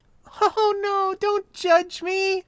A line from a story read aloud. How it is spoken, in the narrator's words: laughed